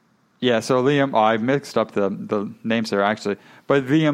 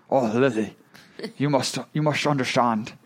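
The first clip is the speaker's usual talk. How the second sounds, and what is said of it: Put-on Sean Connery-like Scottish accent. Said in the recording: “I'll try my best accents here ... That's Sean Connery”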